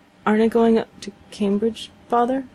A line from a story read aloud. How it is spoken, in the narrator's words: stammered Mike